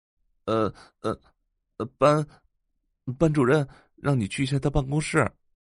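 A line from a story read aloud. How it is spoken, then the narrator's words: Embarrassed, stammering boy. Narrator (Chinese): 男生的脸更红了，声音也有些结巴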